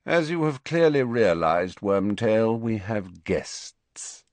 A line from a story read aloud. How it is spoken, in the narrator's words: said Snape lazily